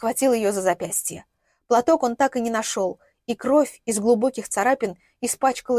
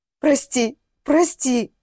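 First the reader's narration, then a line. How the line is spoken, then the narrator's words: Sobbing. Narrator (Russian): всхлипывал он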